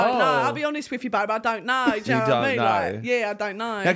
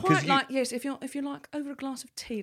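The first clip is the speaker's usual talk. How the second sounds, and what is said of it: Put-on posh British accent. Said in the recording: “Can you do a posh accent? ... it's like an old librarian. It's more in the front of the mouth, in the tongue.”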